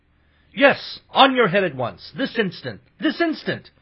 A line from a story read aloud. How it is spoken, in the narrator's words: everyone shouted